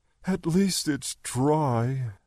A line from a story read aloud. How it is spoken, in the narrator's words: Sunday sighed